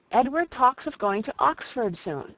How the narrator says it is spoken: said she

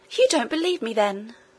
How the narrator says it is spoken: exclaimed the princess, astonished and angry, as she well might be

